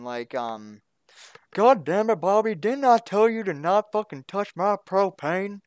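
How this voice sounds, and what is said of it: Hank Hill cartoon character voice. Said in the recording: “doing a Hank Hill impression”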